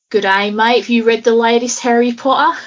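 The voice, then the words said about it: Put-on Australian accent. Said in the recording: “I could do an Australian accent ... what can I say in Australian that would be like very noticeably Australian?”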